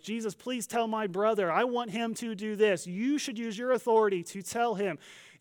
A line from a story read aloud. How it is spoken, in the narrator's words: He yells